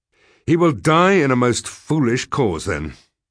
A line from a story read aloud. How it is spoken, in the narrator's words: I said angrily